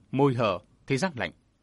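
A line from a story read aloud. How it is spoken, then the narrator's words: Harsh, through gritted teeth. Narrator (Vietnamese): Phan Cửu gằn giọng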